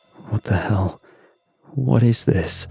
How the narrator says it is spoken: he muttered, voice clipped

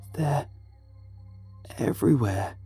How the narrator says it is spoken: rasped, desperation hanging to every word

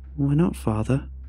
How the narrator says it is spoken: sighed

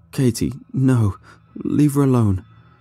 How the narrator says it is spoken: the subject cried as the thrashing became less violent and he slowly drifted into unconsciousness

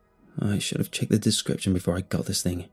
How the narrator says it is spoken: mumbled

